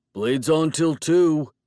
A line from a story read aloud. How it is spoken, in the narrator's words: he shouted after me